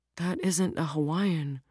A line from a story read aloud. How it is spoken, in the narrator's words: Rose muttered very quietly to herself